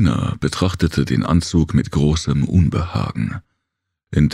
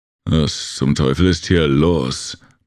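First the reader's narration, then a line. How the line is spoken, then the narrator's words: Angry blustering. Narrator (German): polterte der Akato wütend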